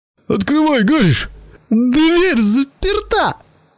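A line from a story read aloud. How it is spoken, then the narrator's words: Squeaky. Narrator (Russian): пискнул Белли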